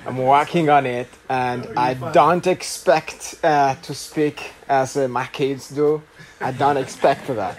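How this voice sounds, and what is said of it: Rwandan-accented English. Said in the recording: “My accent is not the best... you will tell by my accent that I am not from Houston. I'm from Rwanda”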